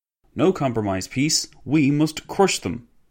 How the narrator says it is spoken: exclaimed a former Minister of Public Works

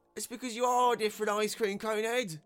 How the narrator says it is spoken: another voice bellowed

